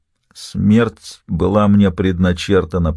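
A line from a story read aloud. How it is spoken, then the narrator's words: Through gritted teeth. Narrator (Russian): процедил Слоуфи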